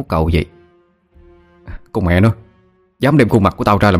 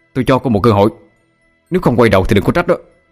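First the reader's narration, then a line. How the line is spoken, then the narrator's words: Loud shout. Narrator (Vietnamese): Quân quát lớn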